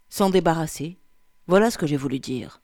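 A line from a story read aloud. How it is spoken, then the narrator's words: Curt dry reply. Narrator (French): répondit sèchement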